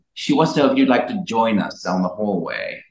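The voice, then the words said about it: Put-on British accent. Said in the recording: “He was like British. ... I hope he's British. If not, that's an odd accent.”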